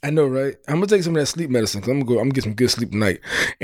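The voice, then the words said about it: Nasal, congested sick-sounding voice. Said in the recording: “I don't know if you can hear it in my voice ... You sound nasal ... I still sound sick.”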